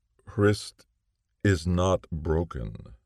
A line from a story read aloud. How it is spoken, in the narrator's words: Niccolo said slowly